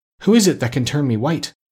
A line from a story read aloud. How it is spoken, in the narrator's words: cried Bumpo, clasping his hands in joy